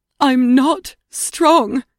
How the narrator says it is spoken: she cried

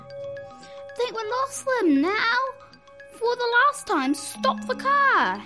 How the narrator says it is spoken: shouted Fingers

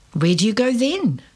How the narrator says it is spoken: Jasmine asked

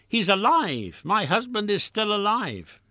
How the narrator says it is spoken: she exclaimed

